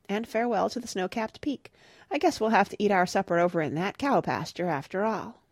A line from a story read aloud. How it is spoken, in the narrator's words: sighed Father